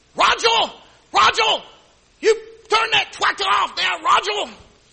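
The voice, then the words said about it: Imitated Honduran-accented woman shouting. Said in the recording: “she was from Honduras. She had this accent.”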